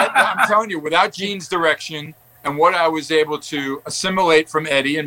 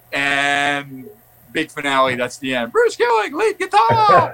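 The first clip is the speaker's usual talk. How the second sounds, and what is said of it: Imitates another person's voice. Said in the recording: “And that was Paul, right? Good imitation.”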